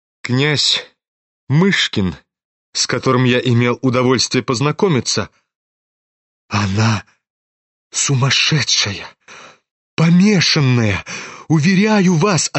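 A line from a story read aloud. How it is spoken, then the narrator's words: Trembling voice. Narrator (Russian): отвечал князь дрожащим голосом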